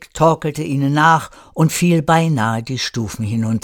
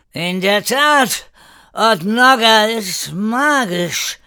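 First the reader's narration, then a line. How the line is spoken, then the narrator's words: Angry drunken slurred shout. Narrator (German): rief Erik wütend lallend und fast fallend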